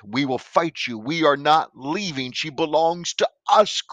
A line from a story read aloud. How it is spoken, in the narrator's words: cried out the devils within her, utilizing her vocal cords